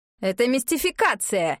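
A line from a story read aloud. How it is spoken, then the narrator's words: Barked. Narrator (Russian): рявкнул Оскар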